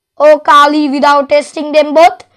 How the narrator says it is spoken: he asked

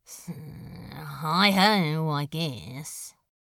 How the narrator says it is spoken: Crowley muttered

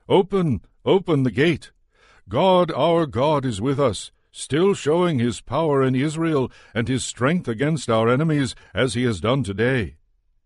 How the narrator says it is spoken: From a distance Judith called out to the sentries at the gates

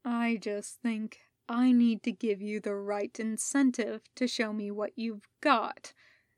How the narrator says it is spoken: the Sith Lord purred

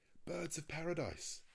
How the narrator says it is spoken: I exclaimed

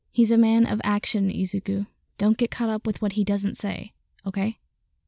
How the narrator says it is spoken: quietly tell his friend

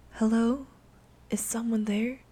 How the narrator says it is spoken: Anna asked softly

